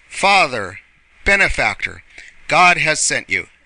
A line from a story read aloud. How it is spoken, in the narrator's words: exclaimed deeply moved voices